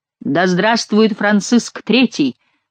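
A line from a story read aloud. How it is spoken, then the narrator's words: Crowd thundering in unison. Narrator (Russian): в один голос прогремело, заставив вздрогнуть церковные своды тесно сплотившаяся толпа дворян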